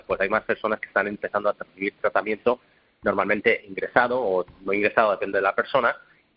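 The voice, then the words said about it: Madrid Spanish accent. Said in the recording (Spanish): “me encanta ese acento madrileño”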